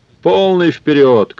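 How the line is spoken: Shouted. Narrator (Russian): крикнул он

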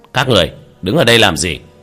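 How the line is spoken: Stern shout. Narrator (Vietnamese): một lãnh đạo nghiêm nghị quát

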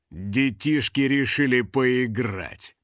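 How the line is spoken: Father's growl. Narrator (Russian): прорычал его отец

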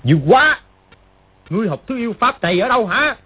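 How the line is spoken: Shocked angry shout. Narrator (Vietnamese): Triệu Chí Kính vừa kinh hãi vừa tức giận gọi to

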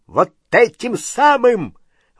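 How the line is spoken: Shrill shriek. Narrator (Russian): взвизгнул дядя Вернон

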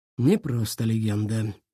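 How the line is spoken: Low voice. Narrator (Russian): проговорил он вполголоса

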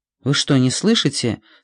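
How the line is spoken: Plain. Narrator (Russian): спросила Диана

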